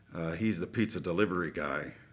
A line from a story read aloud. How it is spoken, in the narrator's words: one of the workers timidly replied